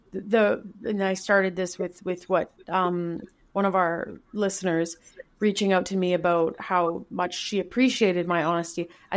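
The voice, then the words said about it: Low, subdued voice. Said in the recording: “I can hear in my voice that I sound quite low right now”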